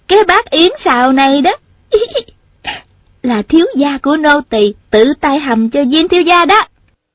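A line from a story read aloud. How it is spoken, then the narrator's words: Giggling. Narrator (Vietnamese): vừa cười khúc khích vừa nói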